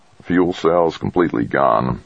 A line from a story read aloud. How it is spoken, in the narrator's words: Craig muttered